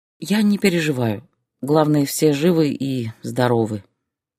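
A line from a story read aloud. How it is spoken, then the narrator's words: Tired reply. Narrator (Russian): устало ответила Зоя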